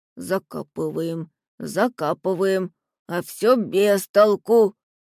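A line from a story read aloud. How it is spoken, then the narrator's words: Grumble. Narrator (Russian): проворчал Джимми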